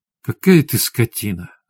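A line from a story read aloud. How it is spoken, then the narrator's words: Breathy exhale. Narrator (Russian): выдохнула Светлана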